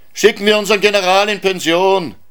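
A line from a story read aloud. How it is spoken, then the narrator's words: Group shouting at party. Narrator (German): schrien die Knuffs auf ihrer Feier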